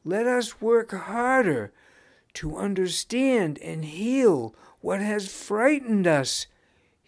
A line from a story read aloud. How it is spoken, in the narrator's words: he pleaded